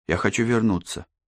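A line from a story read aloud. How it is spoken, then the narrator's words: Quiet. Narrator (Russian): тихо сказал он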